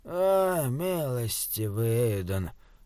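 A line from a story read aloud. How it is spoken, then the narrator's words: Jester's moan. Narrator (Russian): простонал шут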